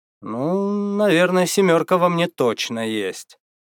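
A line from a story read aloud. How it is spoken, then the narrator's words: Hesitant, uncertain. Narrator (Russian): помедлив, неуверенно произнес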